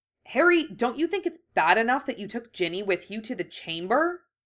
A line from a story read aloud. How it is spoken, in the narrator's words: Ron asked angrily